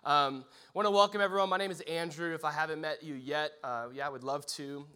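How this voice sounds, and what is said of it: Congested head-cold voice, froggy. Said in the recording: “an impression of Kermit the Frog ... I've got this stupid little head cold thing. And so bear with this, the sound of this.”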